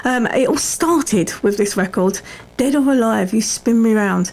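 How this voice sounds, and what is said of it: Croaky, frog in the throat. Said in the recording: “I've got a bit of a frog in my throat.”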